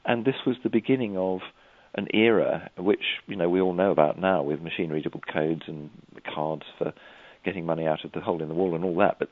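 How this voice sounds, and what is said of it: English accent. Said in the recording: “you're from a place called England ... I expect my accent gives me away.”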